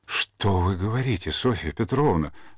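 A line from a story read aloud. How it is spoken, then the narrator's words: Horrified exclamation. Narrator (Russian): с ужасом воскликнул Иванов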